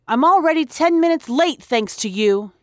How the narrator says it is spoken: he barked

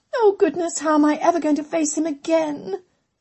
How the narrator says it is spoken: Amelia wailed, pressing her face onto the pillow

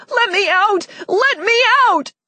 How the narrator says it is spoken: over and over until I was too exhausted to yell anymore

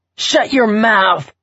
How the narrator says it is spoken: Bobby hollered over the downpour

